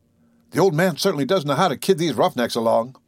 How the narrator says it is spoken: And Ted exclaimed to Verona

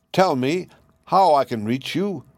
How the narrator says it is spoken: cried he

